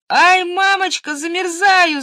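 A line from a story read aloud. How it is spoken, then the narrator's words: Shouting, then crying. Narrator (Russian): закричала Женя и стала плакать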